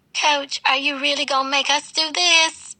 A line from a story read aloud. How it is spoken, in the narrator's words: whined, stomping in place like a toddler